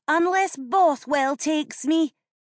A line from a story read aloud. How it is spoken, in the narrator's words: she shouted